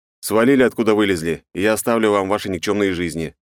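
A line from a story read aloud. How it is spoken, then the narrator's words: Indifferent flat statement. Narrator (Russian): безразличным тоном поставил их перед фактом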